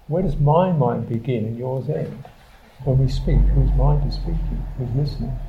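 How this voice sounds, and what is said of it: London English accent. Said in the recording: “What does that voice contain? The particular accent. Where did that come from? Born in London.”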